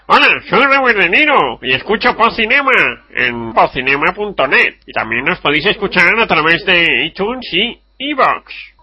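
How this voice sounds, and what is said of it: Imitates a film dubbing actor's voice. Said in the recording (Spanish): “imitación del que dobla Robert De Niro ... hacemos las voces”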